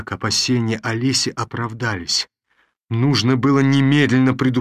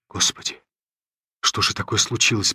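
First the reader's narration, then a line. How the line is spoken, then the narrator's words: Anxious whisper. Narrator (Russian): прошептал я, с замиранием сердца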